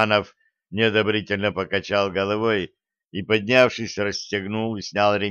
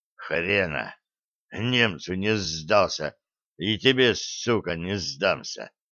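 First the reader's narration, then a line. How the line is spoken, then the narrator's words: Hoarse wheeze, swollen bloody lips. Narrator (Russian): Подследственный разлепил губы, сейчас больше всего напоминающие 2 огромные багровые сардельки, и, втянув носом кровавую юшку, прохрипел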